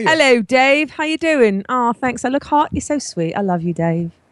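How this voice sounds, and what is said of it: Put-on English accent. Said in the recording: “a really good accent ... that was not a good English accent”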